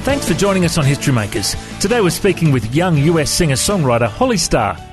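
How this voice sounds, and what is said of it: Australian accent. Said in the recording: “have you chatted to many Aussies before? Do you understand my accent”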